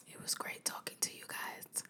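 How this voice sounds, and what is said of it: Soft, sleepy bedtime voice. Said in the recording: “in my bedtime voice”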